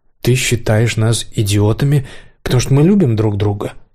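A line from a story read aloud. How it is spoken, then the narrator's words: Plain. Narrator (Russian): спросил Кирилл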